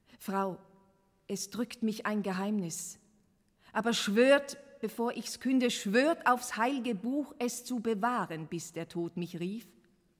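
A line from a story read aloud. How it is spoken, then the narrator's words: Loud call. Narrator (German): Laut rief er Miriam Lane und sagte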